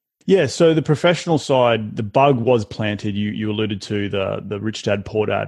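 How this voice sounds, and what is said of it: Non-American accent. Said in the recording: “obviously everyone can hear your accent. You're not from America.”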